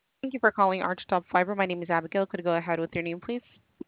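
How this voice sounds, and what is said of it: Very fast speech. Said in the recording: “you said that so fast”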